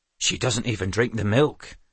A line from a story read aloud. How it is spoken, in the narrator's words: Doran murmured